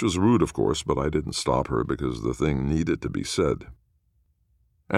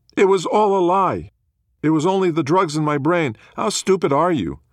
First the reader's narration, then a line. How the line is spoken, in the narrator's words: she'd yell out